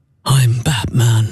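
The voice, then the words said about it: Imitates a movie Batman voice. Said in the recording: “That's good. That's quite good. Very Christian Bale.”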